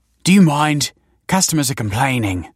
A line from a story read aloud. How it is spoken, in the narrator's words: snapped the manager